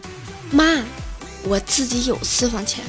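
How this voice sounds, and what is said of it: Quiet, hushed voice. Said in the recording (Chinese): “感动的小声说道”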